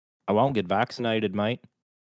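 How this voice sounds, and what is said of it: Put-on Australian accent. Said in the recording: “Let's try and do some accents. Let's start with Australian. ... We got to do a sentence in each accent.”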